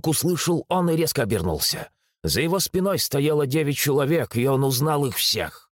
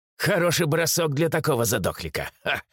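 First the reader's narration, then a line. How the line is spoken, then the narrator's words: Man's skeptical snort. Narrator (Russian): хмыкнул мужчина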